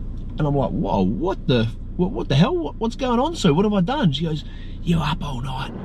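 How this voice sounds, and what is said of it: Usual voice. Nothing is said of it.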